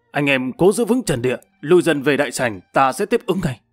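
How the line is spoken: Powerful loud shout. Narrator (Vietnamese): Thiên Long vận khí quát lớn

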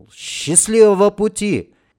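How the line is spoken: Shouted. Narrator (Russian): кто-то крикнул

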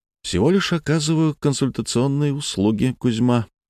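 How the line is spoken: Soft reply. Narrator (Russian): мягко ответил бывший управляющий

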